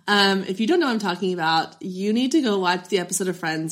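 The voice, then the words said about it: Raspy, not-fully-recovered voice after illness. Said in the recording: “post-COVID recovery... my voice is still not 100%... this is so much my sexy podcast voice”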